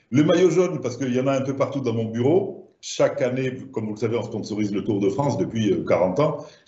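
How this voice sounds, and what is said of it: Southern French accent. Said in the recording (French): “comme mon accent doit vous le laisser penser, je suis du sud de la France”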